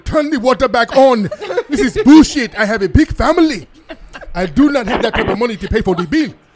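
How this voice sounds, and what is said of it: Put-on East African accent. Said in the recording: “I bet y'all be going down to East Africa ... The accent is close enough, but it's a little bit.”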